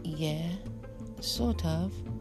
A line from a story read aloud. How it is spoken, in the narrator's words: lowered his voice